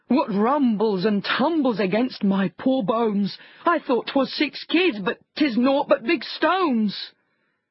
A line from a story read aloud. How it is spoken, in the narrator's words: he cried